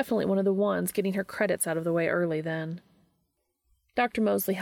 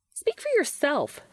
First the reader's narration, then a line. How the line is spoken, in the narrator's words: snapped Josephine